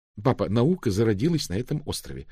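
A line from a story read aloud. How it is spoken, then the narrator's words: Quick reply. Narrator (Russian): быстро ответила Дафна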